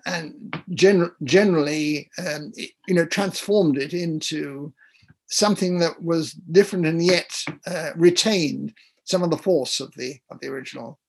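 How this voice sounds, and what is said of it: English accent. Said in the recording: “you can tell by listening to me talking that I have an English accent still... everybody immediately knows that I'm English when I'm on the phone... you still maintain that way of speaking”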